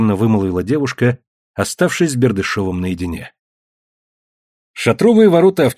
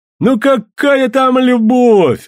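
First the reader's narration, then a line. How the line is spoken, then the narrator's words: Heartfelt exclamation. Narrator (Russian): от души воскликнул Санька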